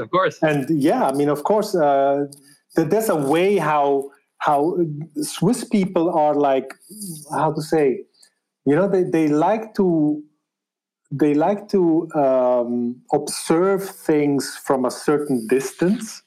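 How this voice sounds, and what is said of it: Swiss German accent in English. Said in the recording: “I am of Spanish descent, but born in Switzerland and raised there in the German part, as you can tell by my accent.”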